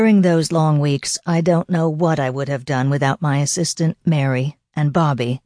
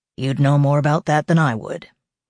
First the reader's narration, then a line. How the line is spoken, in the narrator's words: Harry responded coldly